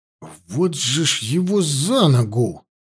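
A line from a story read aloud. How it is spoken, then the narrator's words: Mutter. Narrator (Russian): Только и смог пробормотать я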